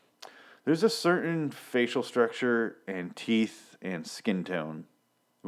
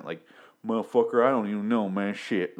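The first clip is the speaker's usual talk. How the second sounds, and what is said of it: Put-on Southern accent. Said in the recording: “southern accent”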